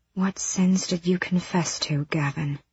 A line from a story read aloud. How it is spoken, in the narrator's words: She whispered into the dark